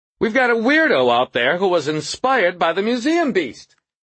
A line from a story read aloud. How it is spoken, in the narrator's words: he said loudly